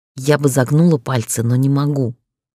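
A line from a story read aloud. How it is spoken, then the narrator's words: Through gritted teeth. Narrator (Russian): процедила ему в лицо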